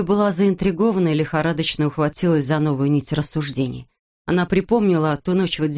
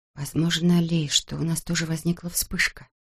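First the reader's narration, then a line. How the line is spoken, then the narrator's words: Quiet speech. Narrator (Russian): тихо проговорила она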